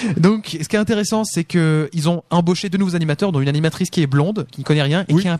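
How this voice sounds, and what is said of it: Usual voice. Nothing is said of it.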